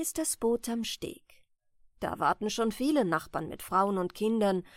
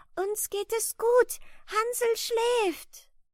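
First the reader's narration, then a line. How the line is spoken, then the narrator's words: Child calling out. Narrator (German): das Kind winkt und ruft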